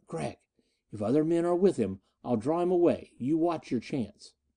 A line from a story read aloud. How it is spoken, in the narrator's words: she whispered